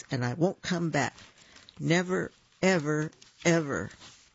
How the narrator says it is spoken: Pippin announced in a shaky voice

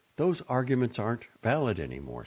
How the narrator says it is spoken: she said

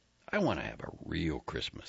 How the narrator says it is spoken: he said

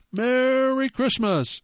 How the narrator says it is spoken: shouted

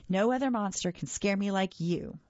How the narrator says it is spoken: I giggled

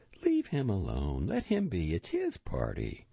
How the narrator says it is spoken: his mother quickly and gently said

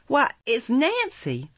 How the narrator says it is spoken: exclaimed Oliver, who now saw her face for the first time, and started back in irrepressible astonishment

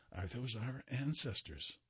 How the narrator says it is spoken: she whispered to me

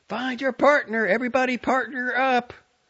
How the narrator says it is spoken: A teacher yelling

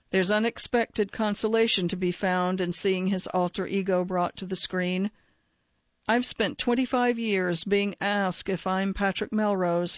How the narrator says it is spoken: says

